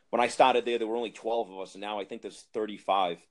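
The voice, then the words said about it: Thick Boston accent. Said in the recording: “my thick Boston accent”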